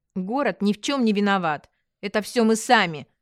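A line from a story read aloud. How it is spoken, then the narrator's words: Irritated. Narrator (Russian): раздраженно сказала я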